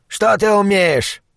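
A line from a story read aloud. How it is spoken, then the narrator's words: Barked. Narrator (Russian): рявкнул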